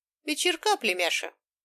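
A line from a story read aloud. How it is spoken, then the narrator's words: Cheerful deep husky greeting. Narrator (Russian): весело поздоровался густой хрипловатый голос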